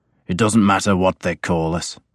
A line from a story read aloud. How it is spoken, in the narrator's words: my father said curtly